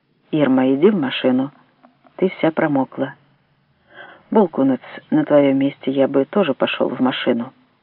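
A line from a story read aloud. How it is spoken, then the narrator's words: Very calm. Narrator (Russian): Он сказал очень спокойно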